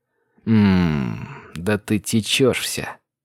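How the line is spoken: Growled. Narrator (Russian): прорычал я

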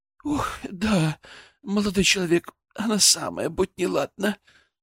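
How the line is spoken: Sighing noblewoman. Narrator (Russian): вздохнула баронесса

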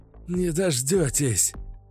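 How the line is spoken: Breathless exhale. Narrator (Russian): Выдохнул Каша

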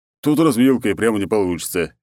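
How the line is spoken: Cheerful sigh. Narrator (Russian): весело вздохнул он

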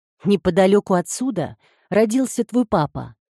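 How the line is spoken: Plain. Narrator (Russian): сказала мама

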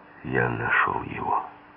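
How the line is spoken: Quiet, into phone. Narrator (Russian): тихо сказал я в трубку

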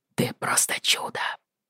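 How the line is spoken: Whispered. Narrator (Russian): шепнул он

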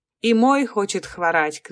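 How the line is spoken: Shouting. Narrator (Russian): кричал он

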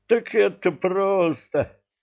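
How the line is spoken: Laughing. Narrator (Russian): засмеялся Кривозуб

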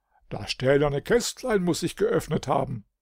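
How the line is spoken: King calling out. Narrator (German): rief König Edelring

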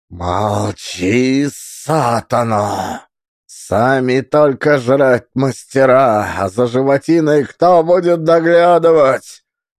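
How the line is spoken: Furious hiss. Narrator (Russian): Рассвирепел Евсей и прошипел

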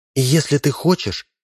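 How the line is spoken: Very loud whisper. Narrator (Russian): прошептала надувная девушка так громко, что слышал весь рынок

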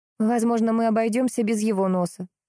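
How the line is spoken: Plain. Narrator (Russian): сказала Алена

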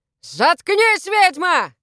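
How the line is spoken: Shouting. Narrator (Russian): закричал на нее Воллер

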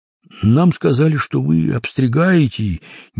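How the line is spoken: Hesitant explanation. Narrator (Russian): неуверенно пояснил Крендель

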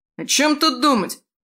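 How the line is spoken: Young man shouting. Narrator (Russian): выкрикнул тощий парень

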